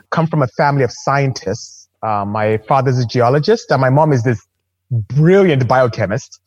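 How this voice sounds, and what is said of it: Nigerian West African accent. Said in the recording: “as you can hear from my accent, I'm not American. I'm not from here. I'm Nigerian, actually. I'm from West Africa.”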